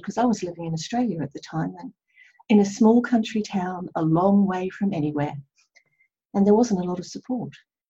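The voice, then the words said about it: Slight Australian accent. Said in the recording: “the little twinge of the Australian accent still ... When I talk about Australia, it gets stronger”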